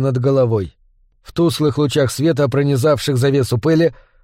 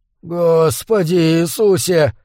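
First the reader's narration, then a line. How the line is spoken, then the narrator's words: Hoarse whisper. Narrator (Russian): хрипло прошептал Гудлоу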